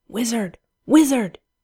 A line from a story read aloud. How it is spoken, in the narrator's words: under his breath